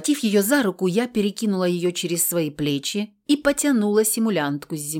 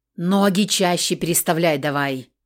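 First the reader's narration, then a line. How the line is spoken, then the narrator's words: Growled. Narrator (Russian): прорычала на нее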